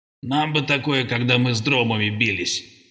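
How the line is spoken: Grumbled. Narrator (Russian): проворчал командор

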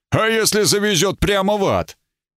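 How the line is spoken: Laughing. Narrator (Russian): Брат Катфаэль засмеялся

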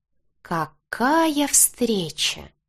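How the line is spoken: Smiling anticipatory drawl. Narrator (Russian): протянул он, предвкушающе улыбаясь

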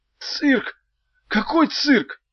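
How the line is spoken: Hoarse rasp. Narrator (Russian): прохрипел Меф

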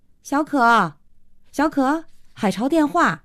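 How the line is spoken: Calling out. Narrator (Chinese): 慧娟一边敲门一边叫

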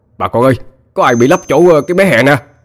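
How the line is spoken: Loud call. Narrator (Vietnamese): một người la lên

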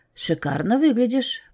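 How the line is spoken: Unfamiliar whisper from behind. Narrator (Russian): прошептал мне в спину чей-то незнакомый голос

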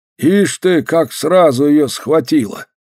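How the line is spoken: Old man, disapproving. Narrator (Russian): покачал головой старик

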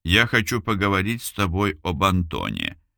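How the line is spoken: Very quiet. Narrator (Russian): очень тихо сказала Эльвира

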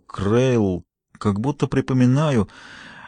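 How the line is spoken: Muttered. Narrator (Russian): Он пробормотал

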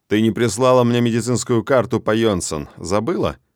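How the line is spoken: Dry. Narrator (Russian): Сухо интересуюсь я

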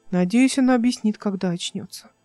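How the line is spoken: Sad. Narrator (Russian): сказал Алик, печально

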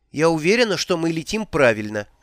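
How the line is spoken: Plain. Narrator (Russian): сказала Маград

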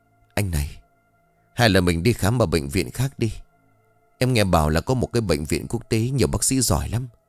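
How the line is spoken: Sighing. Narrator (Vietnamese): Yến liền thở dài

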